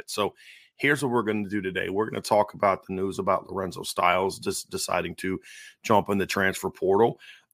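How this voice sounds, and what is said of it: Strained voice, not yet recovered. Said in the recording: “As you can tell, my voice has not really recovered yet ... try to help my voice, you know, get saved a little bit”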